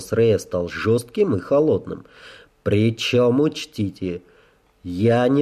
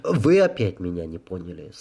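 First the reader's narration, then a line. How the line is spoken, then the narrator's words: Patient sigh. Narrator (Russian): советник терпеливо вздохнул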